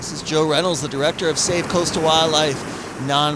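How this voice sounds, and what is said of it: Usual voice. Nothing is said of it.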